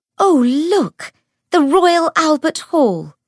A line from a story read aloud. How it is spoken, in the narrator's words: Cordelia cried